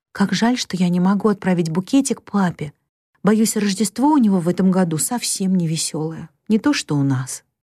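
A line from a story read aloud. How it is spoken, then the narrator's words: Tender whisper. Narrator (Russian): Бет ласково прошептала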